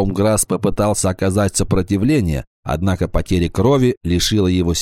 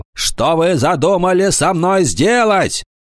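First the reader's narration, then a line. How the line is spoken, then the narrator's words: Angry pained shout. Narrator (Russian): Скорчившись от боли, он гневно закричал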